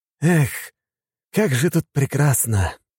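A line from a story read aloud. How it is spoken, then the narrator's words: Delighted deep breath. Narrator (Russian): вздохнув полной грудью, сказал Женя Фанеров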